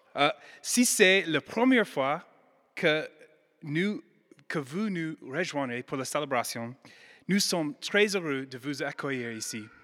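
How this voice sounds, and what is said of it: American accent speaking French. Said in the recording (French): “mon bel accent. ... Je suis américaine”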